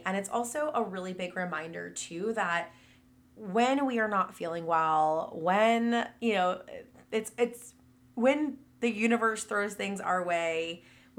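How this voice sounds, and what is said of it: Sick, worn-out voice. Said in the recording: “as you can probably still tell in my voice, ... I have been so sick.”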